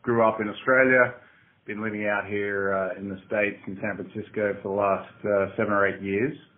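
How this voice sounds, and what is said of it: Australian accent. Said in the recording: “you can tell from my accent that I'm an Aussie”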